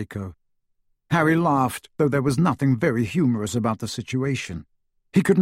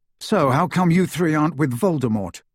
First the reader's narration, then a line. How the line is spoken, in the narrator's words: asked Harry